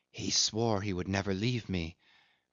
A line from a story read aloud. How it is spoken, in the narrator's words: she whispered softly